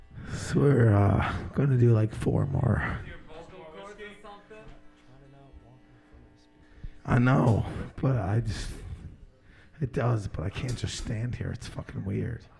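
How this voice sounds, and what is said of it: Very hoarse, raspy voice. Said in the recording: “losing my voice bad ... you sound like ground beef and sandpaper right now”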